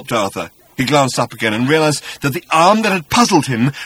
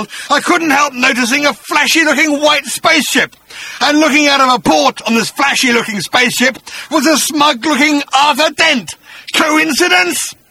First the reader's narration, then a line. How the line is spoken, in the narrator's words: he snarled